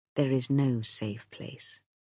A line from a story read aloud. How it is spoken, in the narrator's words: Ogier said gently